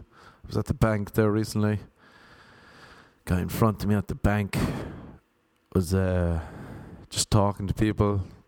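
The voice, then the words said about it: Irish accent. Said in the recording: “Whenever people hear my accent ... where I'm from. And he said, Ireland.”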